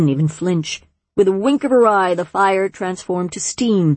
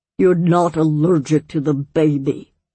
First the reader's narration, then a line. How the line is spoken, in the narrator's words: Glurk groaned